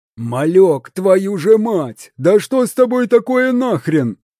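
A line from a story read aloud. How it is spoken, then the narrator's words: Yelling close to ear. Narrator (Russian): Кто-то орал почти в ухо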